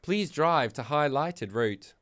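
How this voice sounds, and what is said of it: Imitated Australian accent, GPS voice. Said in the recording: “my dad's was set to an Australian accent ... What did you just do in an Australian?”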